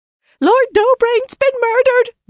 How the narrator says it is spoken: the serving woman squealed

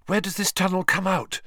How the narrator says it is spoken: Hermione asked breathlessly from behind him

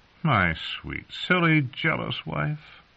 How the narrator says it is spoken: he said, chuckling

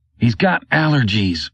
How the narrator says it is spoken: Rydell said through gritted teeth

